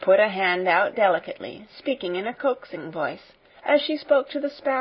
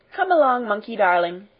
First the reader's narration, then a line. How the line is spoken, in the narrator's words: she said